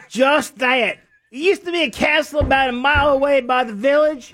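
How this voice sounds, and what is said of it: Put-on Southern accent. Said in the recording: “Southern accents ... Pull it off with a southern accent?”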